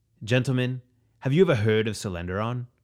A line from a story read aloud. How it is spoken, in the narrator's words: Marzell asked